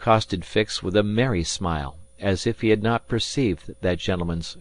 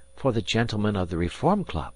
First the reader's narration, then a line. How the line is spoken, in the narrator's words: muttered Passepartout